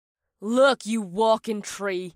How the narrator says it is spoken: growled

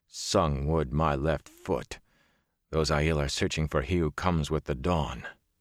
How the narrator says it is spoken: Perrin muttered

